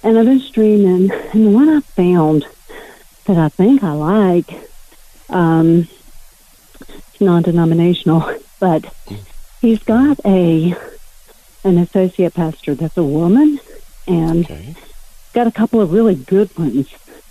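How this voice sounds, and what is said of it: Out of breath, breathless speech. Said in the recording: “I'm out of breath”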